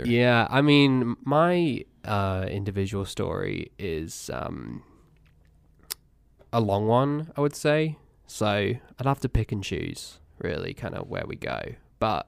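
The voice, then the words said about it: English accent. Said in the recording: “I was born in England. You might be able to tell. ... The accent, I think, gives it away.”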